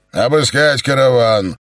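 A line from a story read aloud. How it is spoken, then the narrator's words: Shouted. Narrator (Russian): крикнул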